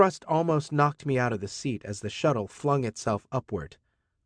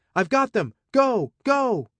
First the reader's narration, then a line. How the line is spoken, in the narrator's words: Arata was shouting